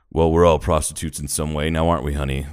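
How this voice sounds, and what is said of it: Imitates another person's weird voice. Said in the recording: “He had this weird voice.”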